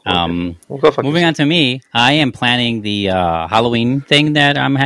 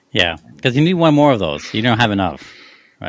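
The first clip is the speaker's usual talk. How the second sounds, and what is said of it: Sarcastic tone. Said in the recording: “That was sarcasm. That was sarcasm.”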